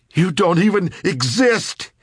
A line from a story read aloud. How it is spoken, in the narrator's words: he shouted, almost crying